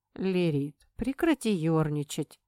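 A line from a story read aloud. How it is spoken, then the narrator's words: Normal tone request. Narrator (Russian): попросил Айдар уже нормальным тоном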